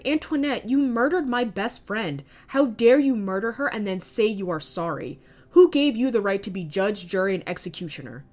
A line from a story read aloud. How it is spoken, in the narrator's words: He cried